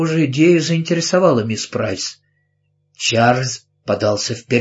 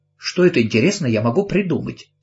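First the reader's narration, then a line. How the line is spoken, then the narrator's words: More agreeable tone. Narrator (Russian): спросила она, но уже более приемлемым тоном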